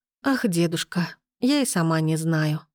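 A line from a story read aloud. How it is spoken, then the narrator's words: Happy mumble. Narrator (Russian): пробормотала я и счастливо улыбнулась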